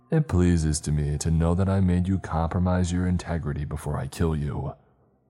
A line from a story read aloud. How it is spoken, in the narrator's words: Chisar said in a deep voice, spittle flying everywhere